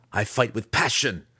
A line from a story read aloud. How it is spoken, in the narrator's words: the weapons master snapped